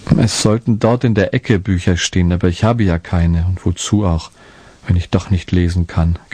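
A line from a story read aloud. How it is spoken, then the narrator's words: Sad confession. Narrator (German): gestand Martinko traurig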